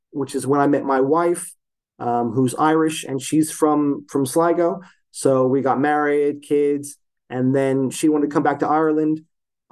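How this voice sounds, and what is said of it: American accent. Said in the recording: “that's why I have an American accent.”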